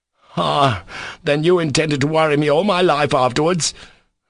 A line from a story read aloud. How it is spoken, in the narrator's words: snarled Ivan